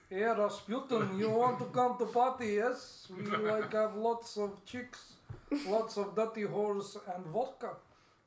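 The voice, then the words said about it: Good put-on Russian accent. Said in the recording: “Do that again in a Russian accent. ... That was extremely good.”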